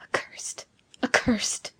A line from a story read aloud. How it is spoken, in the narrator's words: muttered Giovanni, addressing himself